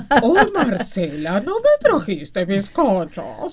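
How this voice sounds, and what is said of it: Cartoon character voice. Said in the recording (Spanish): “¿Me puedo hacer la voz de Homero”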